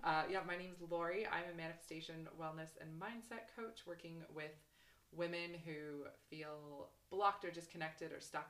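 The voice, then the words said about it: Canadian accent. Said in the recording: “if you've noticed my accent, you'll probably notice I'm not from Scotland ... I'm from Canada originally.”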